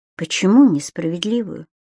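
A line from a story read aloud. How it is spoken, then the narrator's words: Very quiet, calm. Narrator (Russian): Геонея говорила очень тихо, но совершенно спокойно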